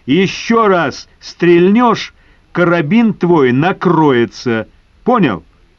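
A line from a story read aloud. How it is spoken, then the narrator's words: Loud deep-breath shout. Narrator (Russian): Набрав побольше воздуха в легкие крикнул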